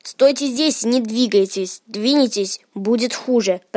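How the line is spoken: Hissed. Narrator (Russian): прошипела она

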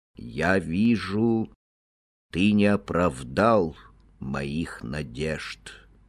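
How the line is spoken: Said sadly. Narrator (Russian): печально сказал он

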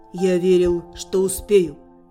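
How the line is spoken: Calm reply. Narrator (Russian): спокойно ответил Лирвейн

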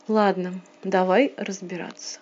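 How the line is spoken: Slow sigh, then speech. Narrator (Russian): он медленно вздохнул, еще более медленно выдохнул и сказал

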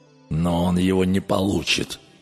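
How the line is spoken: Grated through teeth. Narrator (Russian): проскрипел зубами Гуннар

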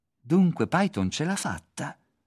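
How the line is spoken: Exclaiming. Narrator (Italian): esclamò Ron

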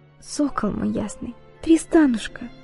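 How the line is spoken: Broken, faltering whisper. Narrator (Russian): прерывающимся голосом прошептала Изольда

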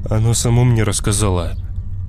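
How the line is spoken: Calm reply. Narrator (Russian): ответил Коля спокойно

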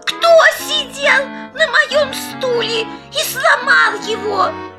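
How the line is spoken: Squeaky child's voice. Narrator (Russian): Мишутка пропищал

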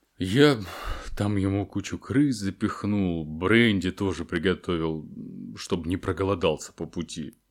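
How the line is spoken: Muffled voice. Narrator (Russian): произнес Хагрид приглушенным голосом

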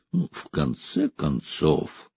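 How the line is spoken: Through gritted teeth. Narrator (Russian): Граф процедил сквозь зубы

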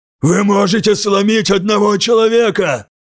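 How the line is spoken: Breathless shout. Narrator (Russian): Задыхаясь, прокричал он, пока его вбивали в землю

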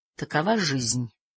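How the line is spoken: Muttered. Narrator (Russian): пробормотал он

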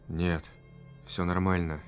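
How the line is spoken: Quiet reply. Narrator (Russian): тихо ответил незнакомец

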